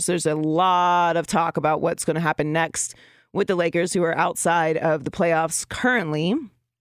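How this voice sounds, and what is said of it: Slightly raspy, throaty voice. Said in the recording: “I feel like I have like a frog in my throat today ... Just a little bit of a tickle there ... It's a little raspy”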